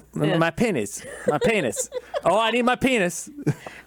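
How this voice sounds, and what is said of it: Imitated Southern East Texas accent. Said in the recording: “She have an accent? ... is from East Texas ... Because she's Southern.”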